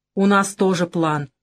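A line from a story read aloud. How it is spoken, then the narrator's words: Grumbling mutter. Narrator (Russian): пробурчал я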